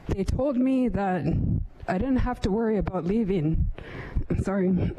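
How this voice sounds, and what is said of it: Emotional, choked-up voice. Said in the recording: “Sorry, I'm going to get emotional.”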